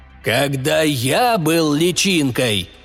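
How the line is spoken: Hoarse, coughing. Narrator (Russian): хрипло начал родитель, закашлялся

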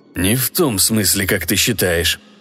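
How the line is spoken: Muttering under breath. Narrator (Russian): в полголоса пробормотал Гиберт

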